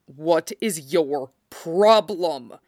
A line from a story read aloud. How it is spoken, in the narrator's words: Shiro snarled